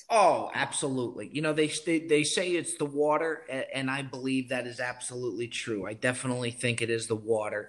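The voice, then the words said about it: East Coast American accent. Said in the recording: “I definitely hear some East Coast coming from you. I thought it was Long Island ... The accent definitely didn't leave me ... from New Jersey”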